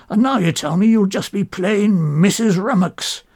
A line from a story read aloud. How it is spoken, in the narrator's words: roars